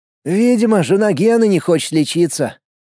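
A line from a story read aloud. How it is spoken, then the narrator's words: Gloomy comment. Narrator (Russian): мрачно прокомментировал Влад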